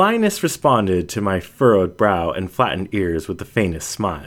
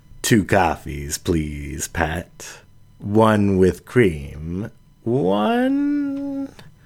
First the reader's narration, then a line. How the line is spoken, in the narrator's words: She lifted her voice in a lingering question